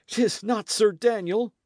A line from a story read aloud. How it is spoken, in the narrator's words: he panted